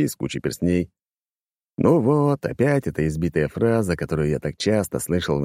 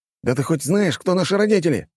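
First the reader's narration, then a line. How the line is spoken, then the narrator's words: Shouted. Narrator (Russian): крикнул один из парней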